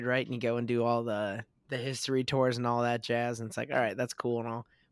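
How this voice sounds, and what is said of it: Raspy, strained voice. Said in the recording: “that's where my voice went. So that's why I sound like this now ... is he sick? ... I'm just a little raspy”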